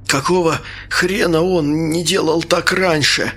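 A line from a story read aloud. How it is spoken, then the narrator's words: Forced out while coughing. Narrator (Russian): кашляя выдавил я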